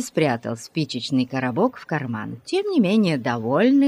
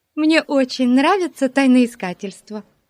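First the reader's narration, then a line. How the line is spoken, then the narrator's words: Joyful declaration. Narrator (Russian): радостно заявила Бетси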